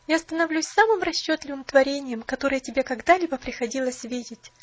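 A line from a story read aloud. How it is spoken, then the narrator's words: Bitter laughter. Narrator (Russian): горестно смеялась она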